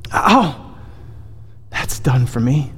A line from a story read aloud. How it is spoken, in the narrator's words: gasped the ghost, reeling backwards